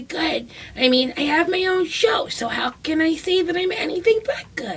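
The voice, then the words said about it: Imitates another person's voice. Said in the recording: “That's a pretty good impression. ... of her. ... a Maria Bamford impression”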